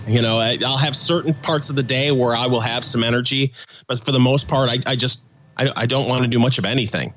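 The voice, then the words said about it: Slightly rough, sick-sounding voice. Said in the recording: “My voice is still a little messed up”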